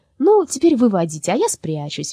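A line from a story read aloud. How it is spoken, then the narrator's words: Cheerful. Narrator (Russian): весело сказала Лёля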